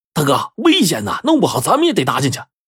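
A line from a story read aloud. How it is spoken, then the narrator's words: Loud. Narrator (Chinese): 一个捕鸟贼就大声说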